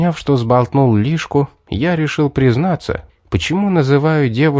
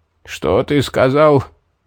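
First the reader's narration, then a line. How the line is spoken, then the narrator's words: Hoarse questioning mage. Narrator (Russian): переспросил осипшим голосом маг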